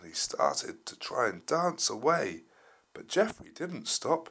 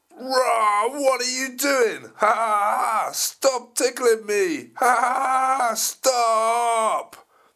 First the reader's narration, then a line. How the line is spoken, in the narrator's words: The T-Rex roared